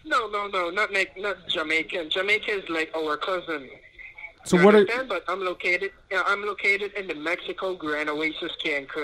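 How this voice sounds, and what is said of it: Caribbean accent. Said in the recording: “my accent sounds different. Yes, I'm from the Caribbean, not an Indian.”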